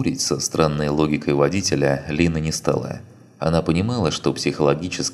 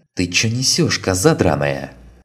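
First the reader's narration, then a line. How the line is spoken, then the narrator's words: Sudden angry outburst. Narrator (Russian): Внезапно вспылил водитель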